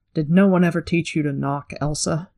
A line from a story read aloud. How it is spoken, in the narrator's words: Nynaeve said